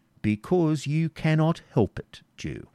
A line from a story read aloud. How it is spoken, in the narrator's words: said the knight sternly